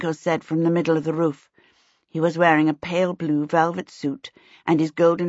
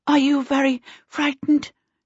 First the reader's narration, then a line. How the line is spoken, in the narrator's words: Charmaine panted anxiously